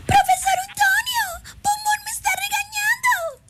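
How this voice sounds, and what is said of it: Squeaky cartoon girl character voice. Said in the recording (Spanish): “puedo hacer la voz de Burbuja ... Chilloncilla, chilloncilla”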